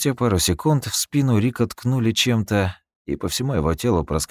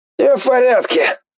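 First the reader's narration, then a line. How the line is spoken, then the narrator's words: Hoarse suffering voice. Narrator (Russian): Послышался еще один голос, хриплый, страдальческий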